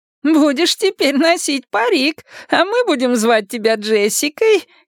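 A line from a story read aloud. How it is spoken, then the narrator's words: Giggling explanation. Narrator (Russian): хихикая объяснила бабушка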